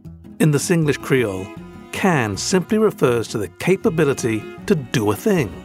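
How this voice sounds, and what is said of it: Rigid British accent. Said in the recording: “my awkwardly rigid British accent”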